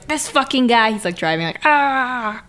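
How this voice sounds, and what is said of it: Imitates an angry character's voice. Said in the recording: “That's my impression. Polnareff is pissed.”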